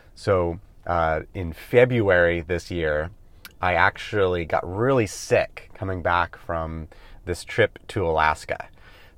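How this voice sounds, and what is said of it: Slightly off, congested-sounding voice. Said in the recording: “my voice is a little bit off today because I am getting over a head cold”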